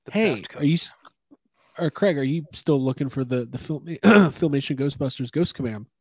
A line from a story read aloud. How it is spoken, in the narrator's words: he's like, getting choked up just thinking about it